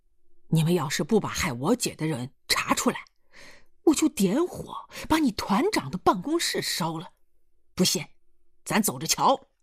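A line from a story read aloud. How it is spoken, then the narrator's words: Furious. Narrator (Chinese): 易清娥他弟见薛团长来，怒火又冲天冒将起来，说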